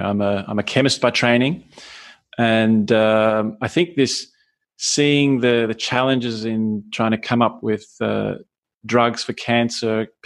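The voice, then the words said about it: Australian English accent. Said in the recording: “obviously from my accent, not Austrian, but I was born in Australia”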